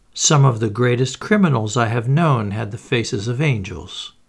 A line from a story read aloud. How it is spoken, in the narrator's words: remarked Poirot cheerfully